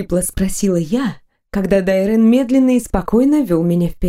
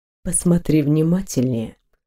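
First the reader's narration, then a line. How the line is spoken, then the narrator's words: Purring man. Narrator (Russian): промурлыкал мужчина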